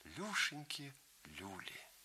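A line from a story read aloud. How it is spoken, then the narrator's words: Thin, very quiet voice. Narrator (Russian): Юрий Александрович тонким и очень тихим голосом подхватил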